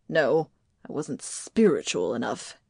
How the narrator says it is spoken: he sneered

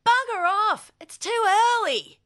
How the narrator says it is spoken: he yelled

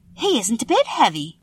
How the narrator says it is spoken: said Dorothy eagerly

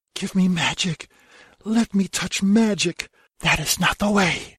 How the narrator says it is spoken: hissing voice of wild magic whispers

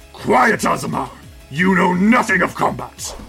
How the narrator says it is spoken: Zecora grunts and says

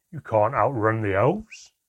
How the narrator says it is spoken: Handown roared at Manquer

